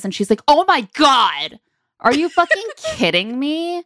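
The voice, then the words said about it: Angry woman's voice impression. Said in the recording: “That was a good impression. ... I dream about that voice now. She's so mad right away.”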